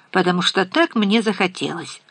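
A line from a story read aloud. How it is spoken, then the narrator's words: Dry tone. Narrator (Russian): сказал Лопес сухо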